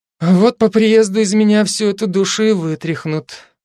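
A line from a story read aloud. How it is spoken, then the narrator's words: Sad, smiling reply. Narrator (Russian): грустно улыбнувшись, ответила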